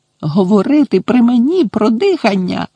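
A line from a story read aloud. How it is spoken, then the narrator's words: Shrill echoing exclamation. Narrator (Ukrainian): пронизливо вигукнула вона, і її голос луною відбився по кімнаті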